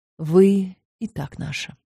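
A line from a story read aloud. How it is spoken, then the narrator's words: Quiet speech. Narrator (Russian): сказал я негромко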